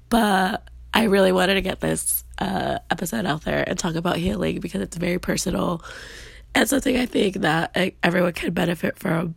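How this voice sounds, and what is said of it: Slightly raspy voice. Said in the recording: “I am currently under the weather. That's why my voice is a little bit more raspy.”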